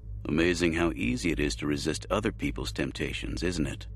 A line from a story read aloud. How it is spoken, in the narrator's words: Jay said dryly